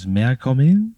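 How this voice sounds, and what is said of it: Man's voice with French accent. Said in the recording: “a man's voice, kind of like a French accent”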